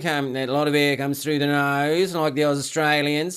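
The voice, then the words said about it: Poor, nasal put-on Australian accent. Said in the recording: “quite nasally... That's probably a terrible Australian accent”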